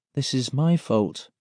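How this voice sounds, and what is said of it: Small, quiet voice. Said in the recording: “I say in a small voice.”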